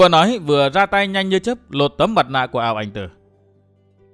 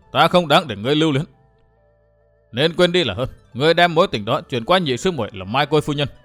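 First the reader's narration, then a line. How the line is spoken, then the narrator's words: Dismissive, faint laugh. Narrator (Vietnamese): Ao Ảnh Tử cười nhạt đáp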